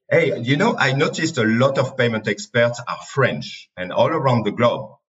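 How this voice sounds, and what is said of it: French accent in English. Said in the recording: “my French accent ... double French accent”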